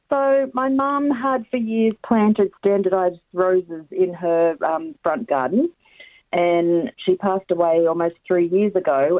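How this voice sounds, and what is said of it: Strained, failing voice. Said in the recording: “Excuse my voice. It decided doesn't want to play today”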